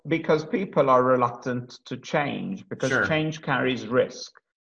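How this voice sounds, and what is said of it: Speaks with a noticeable foreign accent. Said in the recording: “You've got the coolest accent we've ever heard.”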